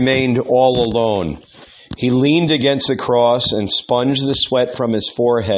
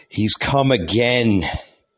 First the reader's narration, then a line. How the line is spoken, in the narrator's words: he murmured, and he began to tremble